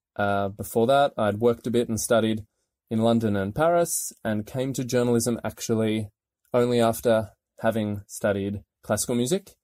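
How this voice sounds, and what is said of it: Australian accent. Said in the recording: “as my accent will tell you, I'm not from here. I'm Australian”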